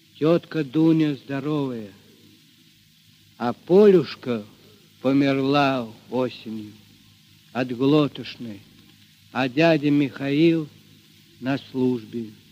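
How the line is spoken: Quiet reply. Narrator (Russian): Мишатка тихо ответил

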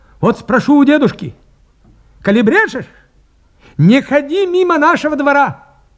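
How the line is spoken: Threatening shout. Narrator (Russian): крикнул, грозя Поповичу кулаком

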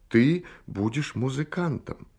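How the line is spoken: Heartfelt gentle voice. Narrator (Russian): Он сказал проникновенным и ласковым голосом

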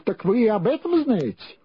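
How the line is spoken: Exclaiming. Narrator (Russian): воскликнул

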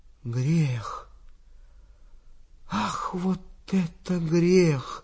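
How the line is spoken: Whispering. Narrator (Russian): Я слышал, как он шептал

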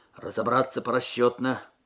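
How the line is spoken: Sergeant's muffled command. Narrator (Russian): приглушенным голосом скомандовал сержант Губарев

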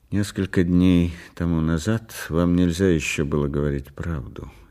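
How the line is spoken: Said quietly. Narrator (Russian): тихо сказал он

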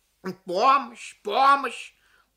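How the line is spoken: Loud, a parent. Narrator (Russian): громко проговорила какая-то родительница

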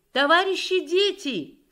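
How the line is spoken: Shout from below. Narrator (Russian): крикнула снизу дежурная МПВО

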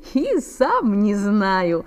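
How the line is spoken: Laughing. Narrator (Russian): засмеялся Саша

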